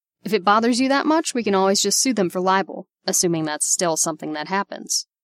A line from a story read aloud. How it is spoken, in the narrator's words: Steve snapped